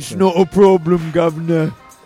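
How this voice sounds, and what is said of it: Put-on British accent, mixed accents. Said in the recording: “Can you do the whole episode in that accent? ... that's like a slamming together, like, three accents.”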